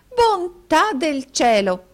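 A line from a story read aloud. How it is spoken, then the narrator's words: Dignified exclamation. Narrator (Italian): esclamò la signorina Squeers, giungendo le mani con gran dignità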